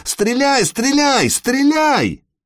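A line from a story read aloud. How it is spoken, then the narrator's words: Two voices shouting. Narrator (Russian): Оба берманца закричали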